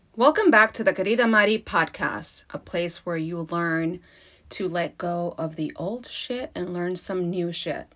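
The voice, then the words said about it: Congested voice with sniffling. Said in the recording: “I have a cold, or I'm getting over a cold, so I'm going to sniffle a little bit ... there's going to be some sniffling”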